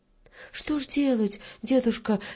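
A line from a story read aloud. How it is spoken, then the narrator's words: Frightened question. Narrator (Russian): испуганно спросила Варя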